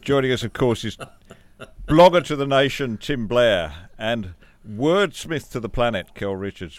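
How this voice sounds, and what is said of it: English accent. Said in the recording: “a bloke with a pommy accent”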